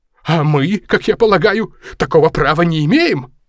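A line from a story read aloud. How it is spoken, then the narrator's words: Indignant exclamation. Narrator (Russian): воскликнул негодуя мистер Мид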